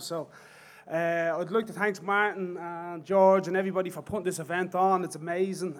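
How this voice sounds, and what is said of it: Thick Dublin accent. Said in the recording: “I talk with a very thick Dublin accent”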